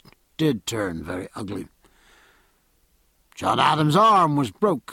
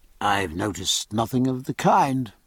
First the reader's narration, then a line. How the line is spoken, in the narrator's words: said Palmer sharply